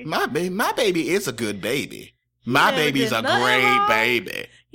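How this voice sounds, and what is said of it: Doting mother character voice. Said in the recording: “the mom voice”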